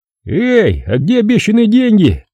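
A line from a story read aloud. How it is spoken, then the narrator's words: Cheerful shout. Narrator (Russian): весело крикнул Горин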